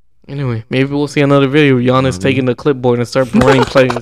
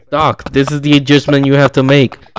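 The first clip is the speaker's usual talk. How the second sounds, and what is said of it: Imitates another person's voice. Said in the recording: “good impression. Oh my gosh, that's a good impression. ... one of the better Doc Rivers impressions I've seen”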